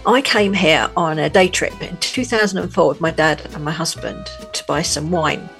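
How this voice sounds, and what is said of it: London English accent. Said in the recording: “as you may be able to tell from my accent, born in London”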